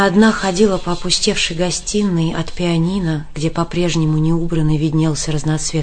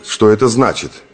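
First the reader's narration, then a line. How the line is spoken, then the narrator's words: Angry question. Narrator (Russian): Сердито спросил Турбин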